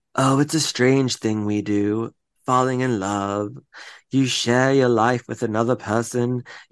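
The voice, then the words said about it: Imitation of Grams's voice. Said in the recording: “I'm going to try to do her voice. I haven't done it in a long time.”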